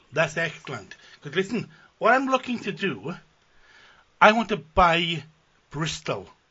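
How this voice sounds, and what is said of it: Welsh accent. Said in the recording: “I don't okay. know if you can tell by my accent, but I'm Welsh.”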